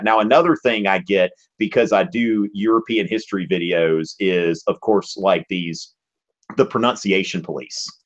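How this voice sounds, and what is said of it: Southern American accent. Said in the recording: “really intelligent people that come from the South. So I've never tried to hide my accent”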